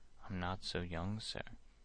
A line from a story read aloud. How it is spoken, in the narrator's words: he replied